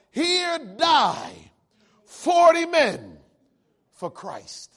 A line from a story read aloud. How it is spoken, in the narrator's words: the 40 of them together begin to shout